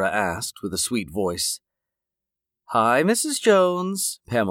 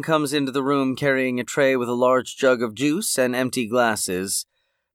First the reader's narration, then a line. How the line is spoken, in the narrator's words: Pamela said blandly